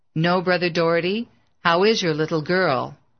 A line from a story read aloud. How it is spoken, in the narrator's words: his voice sounded flat